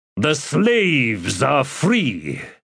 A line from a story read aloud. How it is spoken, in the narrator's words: he said in a loud voice that carried to everyone